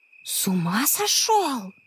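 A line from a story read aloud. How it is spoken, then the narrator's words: Hiss. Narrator (Russian): прошипела Анна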